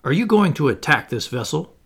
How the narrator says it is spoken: I cried

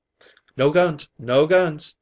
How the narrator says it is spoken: he shouted

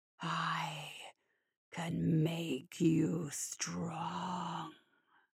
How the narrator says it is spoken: December whispered, the growl coming from right next to her ear

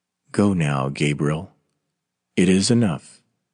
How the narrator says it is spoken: very gently

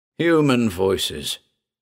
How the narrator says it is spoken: said Harriman bitterly

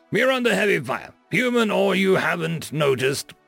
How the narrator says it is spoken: Driscoll roared, his temper starting to run short

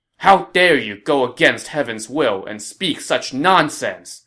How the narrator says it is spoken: he chided Wang Wei angrily

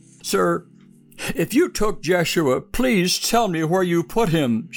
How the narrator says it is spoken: she whimpered

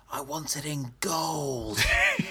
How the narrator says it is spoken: And just a big stage whisper

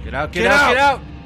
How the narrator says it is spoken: Both Megan and Kimo yelled simultaneously

